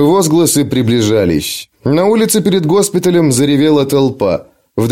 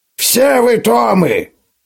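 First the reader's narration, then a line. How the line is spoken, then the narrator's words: Hoarse old man's shout. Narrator (Russian): хрипло крикнул старый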